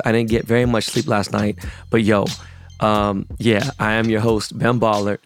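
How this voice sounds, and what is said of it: Hoarse, strained voice. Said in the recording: “I might have lost my voice.”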